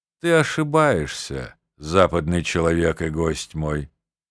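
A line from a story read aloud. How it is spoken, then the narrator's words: Sad, faintly mocking. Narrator (Russian): грустно и с едва уловимой насмешкой ответил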